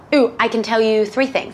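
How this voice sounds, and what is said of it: Put-on British accent. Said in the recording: “can you give me your best British accent? ... I don't know why I'm still speaking in a British accent.”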